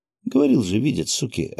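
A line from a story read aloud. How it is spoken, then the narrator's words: Stunned mutter. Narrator (Russian): ошарашенно пробормотал Гензо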